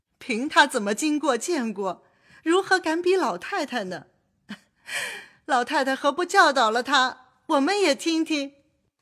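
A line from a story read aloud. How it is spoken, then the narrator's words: Several speakers laughing. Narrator (Chinese): 薛姨妈等都笑说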